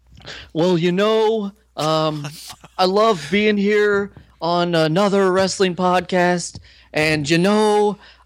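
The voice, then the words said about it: Bad Bret Hart impression. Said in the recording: “that was the worst Bret Hart impersonation. ... worst.”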